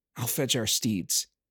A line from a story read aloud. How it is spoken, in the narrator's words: muttering